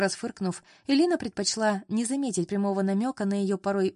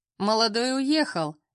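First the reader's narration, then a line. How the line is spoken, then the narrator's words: Short chuckle. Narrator (Russian): хохотнула Ирина Витальевна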